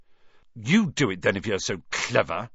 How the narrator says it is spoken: Ron snarled

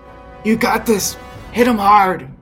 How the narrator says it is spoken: he's going to yell at Eugene

